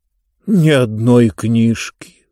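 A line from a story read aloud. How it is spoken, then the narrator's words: Sad. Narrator (Russian): сказал он печально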